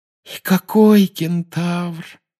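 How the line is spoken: Sighing. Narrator (Russian): вздохнула Парвати

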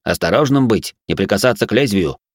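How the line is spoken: Sharp warning. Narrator (Russian): резко предупредил принц

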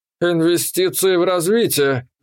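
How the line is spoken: Thoughtful drawl. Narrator (Russian): задумчиво протянул дядька

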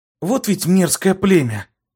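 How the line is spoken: Relieved exhale. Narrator (Russian): Облегченно выдохнула Итта

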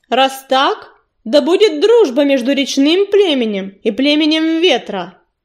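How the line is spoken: Booming voice. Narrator (Russian): прогремел Огнезвезд

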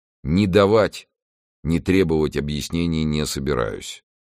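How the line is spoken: Gloomy. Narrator (Russian): произнес он мрачно

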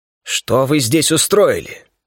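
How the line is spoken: Menacing voice. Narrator (Russian): Голос звучал грозно

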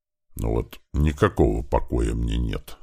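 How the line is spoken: Grumbling under breath. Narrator (Russian): традиционно начал ворчать себе под нос ветеран

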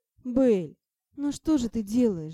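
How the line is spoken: Groan. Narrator (Russian): застонал Ти

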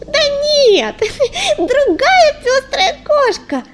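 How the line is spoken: Condescending laugh. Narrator (Russian): засмеялась Орешенка, снисходительно поглядев на непонятливую Листвичку

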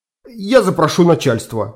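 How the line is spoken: Forced out at last. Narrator (Russian): выдавил наконец он

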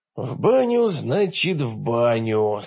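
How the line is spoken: Resigned mutter. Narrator (Russian): смиряясь, пробормотал я

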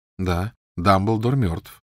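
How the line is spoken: Calm. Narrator (Russian): спокойно откликнулся Гарри

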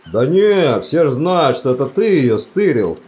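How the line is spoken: Cheerful announcement. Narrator (Russian): радостно сообщил караульный

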